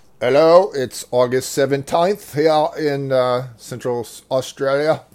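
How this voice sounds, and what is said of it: Bad put-on Australian accent. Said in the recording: “That's about the worst Australian accent I've ever heard.”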